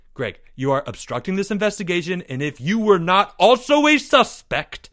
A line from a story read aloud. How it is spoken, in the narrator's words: snapped Leo